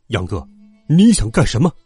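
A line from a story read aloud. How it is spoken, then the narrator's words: Stern reproach. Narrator (Chinese): 爸爸厉声责问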